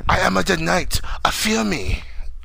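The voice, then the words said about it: Put-on Asian accent. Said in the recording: “Why would he speak with an accent? ... Because he's Asian.”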